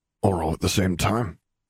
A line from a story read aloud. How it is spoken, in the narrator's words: he muttered to himself